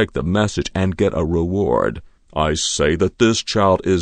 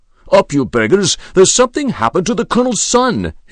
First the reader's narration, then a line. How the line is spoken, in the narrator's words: shouted